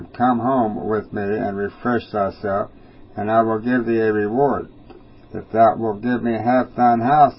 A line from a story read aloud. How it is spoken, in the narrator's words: the prophet replied